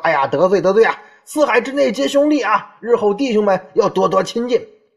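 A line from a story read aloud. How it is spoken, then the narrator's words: Loud, tipsy-sounding. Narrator (Chinese): 大声的用语言来表态，类似于像那种大家喝高了说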